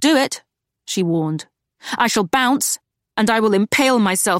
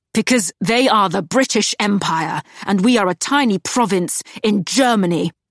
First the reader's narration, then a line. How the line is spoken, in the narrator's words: he roared